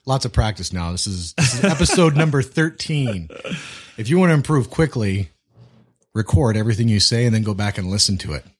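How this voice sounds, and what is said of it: Good radio voice. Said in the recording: “You got a good radio voice, bud.”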